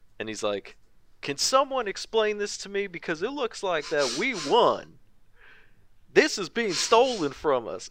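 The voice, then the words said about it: Put-on Southern US accent. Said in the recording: “that's my best Trump supporter accent, by the way ... Did you learn that in Georgia?”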